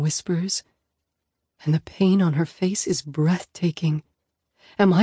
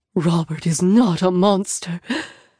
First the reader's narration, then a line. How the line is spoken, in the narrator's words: Mom gasps